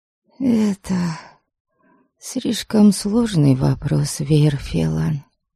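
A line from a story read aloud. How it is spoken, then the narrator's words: Hoarse. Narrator (Russian): хрипло произнесла я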